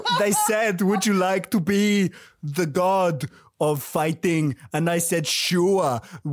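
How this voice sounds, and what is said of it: Arnold Schwarzenegger impression. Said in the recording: “Arnold Schwarzenegger in Hercules in New York”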